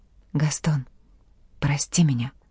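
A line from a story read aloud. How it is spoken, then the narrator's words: Faint whisper, cold lips. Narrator (Russian): шептали ее поблекшие, посиневшие от холода губы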